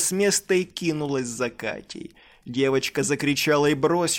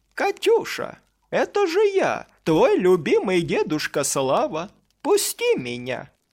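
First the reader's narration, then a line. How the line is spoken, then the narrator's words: Eerily kind monster voice. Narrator (Russian): Монстр говорил это пугающе добрым голосом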